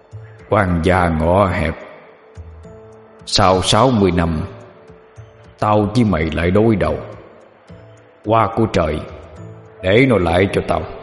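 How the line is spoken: Cold old man. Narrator (Vietnamese): Lão ta ... lạnh lùng nói

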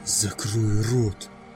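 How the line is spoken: Hiss. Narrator (Russian): прошипел Тёма

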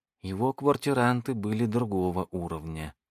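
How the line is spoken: Sad. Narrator (Russian): сказала Джеки, печально покивав головой

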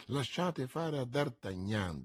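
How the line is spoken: Plain. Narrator (Italian): disse Athos

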